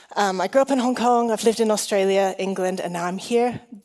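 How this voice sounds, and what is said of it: Mixed, shifting international English accent. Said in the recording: “my confusing accent ... I'm Chinese and Welsh ... The accent changes according to who I'm speaking to.”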